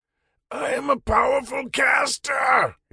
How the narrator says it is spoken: he roared

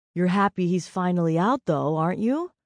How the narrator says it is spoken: Sierra asked

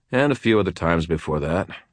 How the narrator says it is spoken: I said

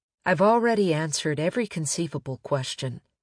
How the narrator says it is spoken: Magda Schaefer said

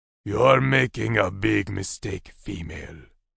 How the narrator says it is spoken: growled at her

